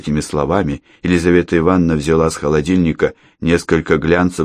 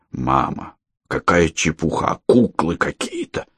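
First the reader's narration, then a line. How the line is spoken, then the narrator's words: Grumbling mutter. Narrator (Russian): пробурчал Андрей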